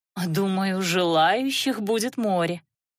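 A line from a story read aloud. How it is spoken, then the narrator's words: Drawn-out speech. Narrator (Russian): протянула Наташа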